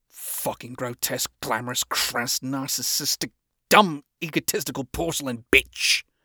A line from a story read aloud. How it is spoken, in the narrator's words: I mumble under my breath again